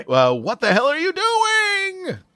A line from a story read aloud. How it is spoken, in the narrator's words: She screamed, spitting chocolate